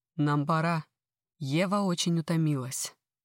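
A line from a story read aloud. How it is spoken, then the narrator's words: Deep chest bass. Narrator (Russian): прорезает тихую мелодию своим грудным басом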